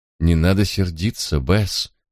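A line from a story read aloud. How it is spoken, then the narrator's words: Soothing queen's tone. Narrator (Russian): умиротворяющим тоном произнесла королева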